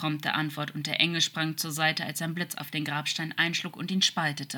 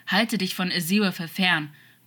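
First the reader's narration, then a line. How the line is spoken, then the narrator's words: Old man's warning growl. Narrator (German): knurrte der Alte in einem warnenden Unterton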